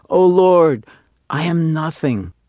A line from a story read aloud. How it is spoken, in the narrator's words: the janitor of the synagogue, deeply moved himself, was heard to exclaim